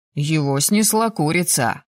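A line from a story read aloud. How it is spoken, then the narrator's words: Smirking snort. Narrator (Russian): хмыкнул Ривен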